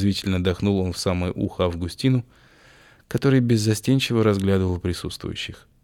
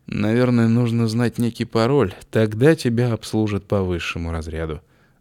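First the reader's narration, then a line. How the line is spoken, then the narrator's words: Sighing. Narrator (Russian): вздохнул Августин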